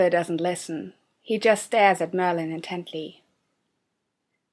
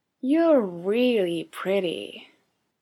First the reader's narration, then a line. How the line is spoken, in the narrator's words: Arthur slurs